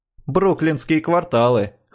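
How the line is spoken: Snort. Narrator (Russian): хмыкнул Джо

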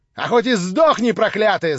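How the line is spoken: Shrieking woman. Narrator (Russian): завизжала баба вслед за ней

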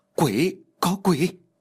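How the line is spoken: Terrified group screaming. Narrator (Vietnamese): Tất cả mọi người đều kinh sợ và hét lên

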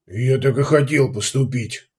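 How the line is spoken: Grumble after pause. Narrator (Russian): после паузы пробурчал Делаэрт

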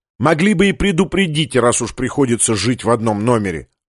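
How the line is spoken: Irritated. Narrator (Russian): раздраженно сказал Дик

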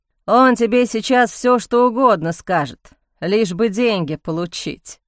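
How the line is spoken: Grumbled. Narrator (Russian): проворчал Дэйв

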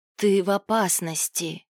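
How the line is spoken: Hoarse rasp. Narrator (Russian): прохрипела она Илаю

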